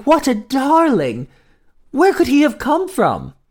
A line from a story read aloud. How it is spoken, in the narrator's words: she gasped